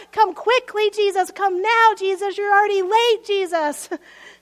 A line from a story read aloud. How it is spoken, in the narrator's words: They scream and they shout